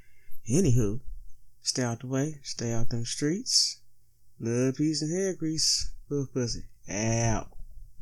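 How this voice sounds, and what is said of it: Slow, sluggish speech. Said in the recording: “I sound like a little slow on this one, man, I'm high as pigeon shit”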